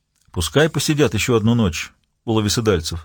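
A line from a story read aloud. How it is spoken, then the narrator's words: Dry reply. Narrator (Russian): сухо ответил Ельм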